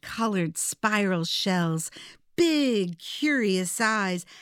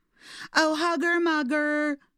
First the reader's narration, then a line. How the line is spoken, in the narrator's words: snailies would shout